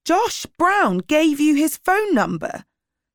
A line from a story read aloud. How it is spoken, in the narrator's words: Sally shouted